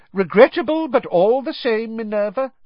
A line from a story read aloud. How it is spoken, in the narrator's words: Cornelius Fudge was saying loudly